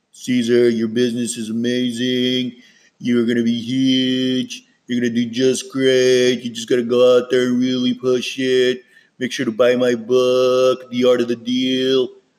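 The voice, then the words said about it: Donald Trump impression. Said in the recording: “I'll do a really quick impression of my Trump”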